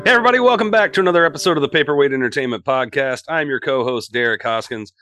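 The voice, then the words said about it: Sick, worn-out voice. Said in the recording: “apologize for my voice... I'm dealing with COVID this week. It has really taken it out of me”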